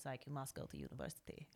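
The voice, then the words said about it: Imitated Russian accent. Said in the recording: “He's Russian, so hence the accent.”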